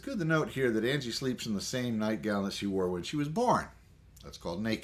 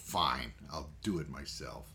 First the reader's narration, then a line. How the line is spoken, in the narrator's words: Angrily muttering to herself about her useless husband, she grumbled